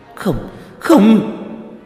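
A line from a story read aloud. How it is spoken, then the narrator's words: Panicked cry. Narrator (Vietnamese): Nhuế Lãnh Ngọc lập tức thất thanh kêu lên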